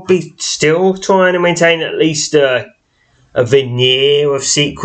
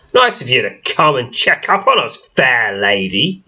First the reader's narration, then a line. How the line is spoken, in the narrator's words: he sneers